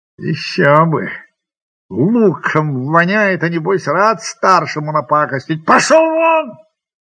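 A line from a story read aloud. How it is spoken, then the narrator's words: Shout. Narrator (Russian): крикнул Шмахин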